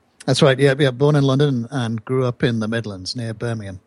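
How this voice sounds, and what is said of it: British accent. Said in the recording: “There's no doubt from your accent, you were born in the UK”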